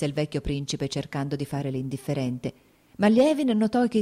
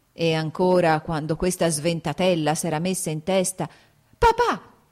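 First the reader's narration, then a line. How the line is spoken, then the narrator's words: Shouting. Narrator (Italian): gridò Kitty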